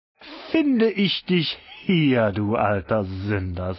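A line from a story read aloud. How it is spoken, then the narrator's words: Plain. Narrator (German): sagte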